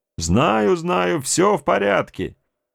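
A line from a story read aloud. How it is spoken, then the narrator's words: Carefree shout from afar. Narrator (Russian): Беззаботно заорал в ответ человек с берега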